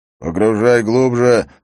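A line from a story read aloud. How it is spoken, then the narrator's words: Overseer growling. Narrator (Russian): прорычал надсмотрщик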